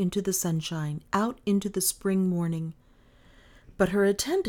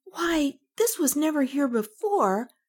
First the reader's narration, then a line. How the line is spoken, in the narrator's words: Kay exclaimed